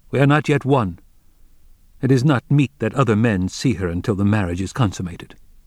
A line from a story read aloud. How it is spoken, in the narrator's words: Wang Lung replied firmly